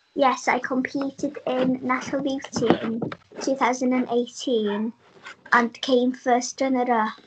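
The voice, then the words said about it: Speaks with a pleasant accent. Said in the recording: “I love your accent, by the way, it's very nice.”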